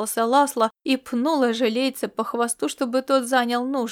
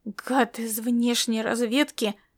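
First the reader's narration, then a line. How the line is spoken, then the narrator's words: Growl. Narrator (Russian): наконец прорычал ожилеец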